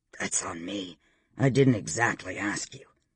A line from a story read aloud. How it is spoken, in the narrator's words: he muttered